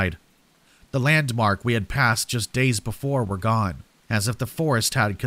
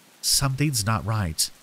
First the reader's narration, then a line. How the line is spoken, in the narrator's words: Lisa murmured